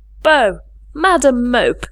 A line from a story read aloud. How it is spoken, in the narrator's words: cried the voice of John Reed